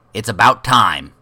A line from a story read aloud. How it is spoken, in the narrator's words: the closest one said, impatiently